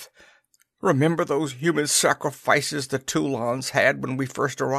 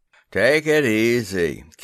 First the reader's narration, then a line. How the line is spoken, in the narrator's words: Kennedy slurred